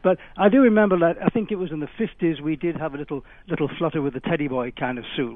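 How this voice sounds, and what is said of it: British accent. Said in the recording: “my accent ... I come from the UK, although I've been here for nearly 40 years and I'm an American now”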